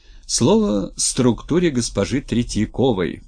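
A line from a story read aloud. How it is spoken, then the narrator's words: Booming male voice over speaker. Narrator (Russian): прогремел в динамике мужской голос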